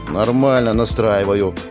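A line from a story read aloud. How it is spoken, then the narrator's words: Grumbling. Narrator (Russian): бурчала она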